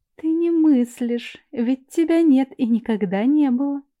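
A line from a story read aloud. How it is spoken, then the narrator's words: Confiding after laughter. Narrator (Russian): Отсмеявшись, доверительно сообщил голос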